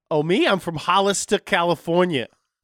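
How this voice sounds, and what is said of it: New Jersey-sounding accent. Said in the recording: “You sound like you're from New Jersey.”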